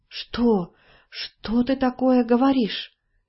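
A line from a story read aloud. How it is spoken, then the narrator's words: Disbelieving whisper, old woman. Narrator (Russian): не веря своим ушам, прошептала старуха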